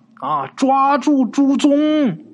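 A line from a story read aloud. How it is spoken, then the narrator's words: Terrified shout, running. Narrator (Chinese): 他爸吓得脸都白了，一边追一边喊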